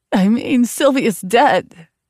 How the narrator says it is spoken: she spat

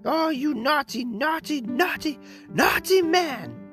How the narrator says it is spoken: she cried

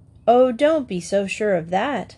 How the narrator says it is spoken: said the first

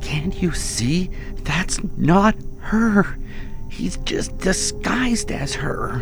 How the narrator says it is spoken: I whispered

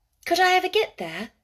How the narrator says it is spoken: asked Mary wistfully

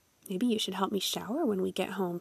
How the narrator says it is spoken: she murmured, low enough that no one else could hear

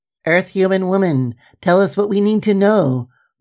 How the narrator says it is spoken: the furry, spidery alien chirped

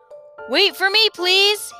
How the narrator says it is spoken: he shouted to Tok and the humbug

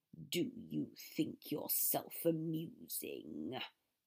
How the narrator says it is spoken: Severus growled

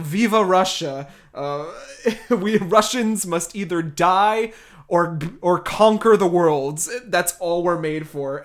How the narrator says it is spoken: shouts

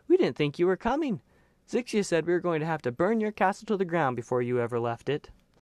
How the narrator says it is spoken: Yvelda cried

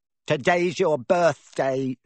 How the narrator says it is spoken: sneered Dudley

